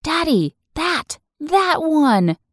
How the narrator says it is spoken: my daughter suddenly cried

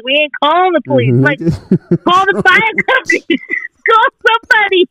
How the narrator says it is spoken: And they're laughing like

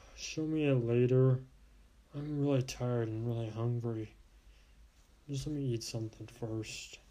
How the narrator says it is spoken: I just mumbled

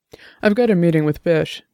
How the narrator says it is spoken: Dex said

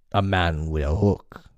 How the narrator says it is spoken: they snarled

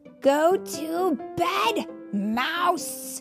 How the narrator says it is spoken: roared the house and the neighborhood and the city and the world

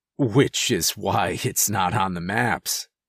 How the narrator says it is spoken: he said with another educational chuckle

